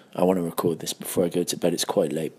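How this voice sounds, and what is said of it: Hushed quiet voice. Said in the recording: “I'm speaking in a hushed voice ... this is a hushed tone”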